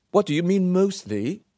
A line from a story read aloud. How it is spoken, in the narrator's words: Jem said nervously